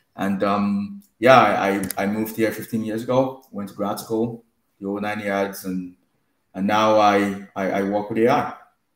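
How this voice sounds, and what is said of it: Nigerian accent. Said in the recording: “I am originally from Nigeria. You could potentially hear it in my accent.”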